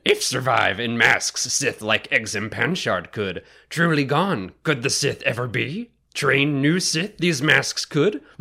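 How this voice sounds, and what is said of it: Yoda impression. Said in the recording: “my best Yoda impression using Yoda syntax and everything”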